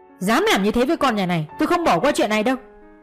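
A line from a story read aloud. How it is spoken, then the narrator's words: Angry father's voice. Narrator (Vietnamese): giọng của bố bên ngoài giận dữ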